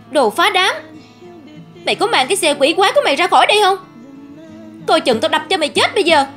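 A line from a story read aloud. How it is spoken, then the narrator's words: Sudden shout. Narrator (Vietnamese): Bỗng Bình hét lên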